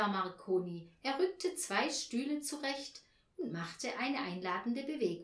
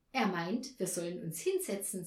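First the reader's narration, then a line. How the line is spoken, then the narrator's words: Said giggling. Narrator (German): sagte Anja und kicherte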